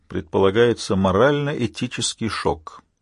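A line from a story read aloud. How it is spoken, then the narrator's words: Quiet comment. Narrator (Russian): тихо прокомментировал Джон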